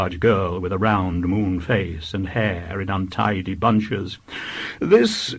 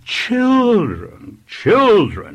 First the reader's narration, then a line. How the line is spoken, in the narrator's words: exclaimed the vicar